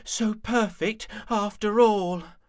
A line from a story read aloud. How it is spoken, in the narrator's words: panted Rabbit